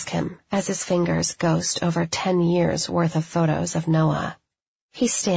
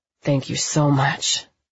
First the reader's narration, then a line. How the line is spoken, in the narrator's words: he mumbles against my neck